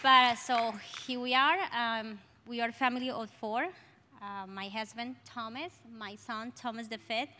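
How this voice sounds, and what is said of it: Strong Colombian accent in English. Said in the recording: “I'm sorry for my accent. I have a Colombian accent, very strong.”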